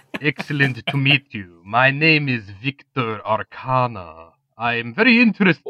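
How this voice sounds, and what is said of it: Foreign accent. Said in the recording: “a young man with a foreign accent”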